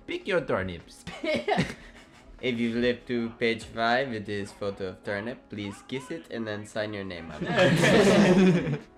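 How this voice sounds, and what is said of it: Mock imitation of teacher's accent. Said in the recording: “That teacher's so weird. Her accent, like.”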